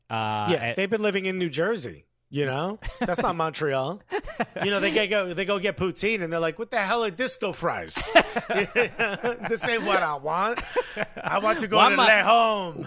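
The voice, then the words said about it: Put-on Italian-style accent. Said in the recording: “Why am I talking like this? I'm French. ... What's happening to me accent? Now all of a sudden I talk like this. ... My Italian.”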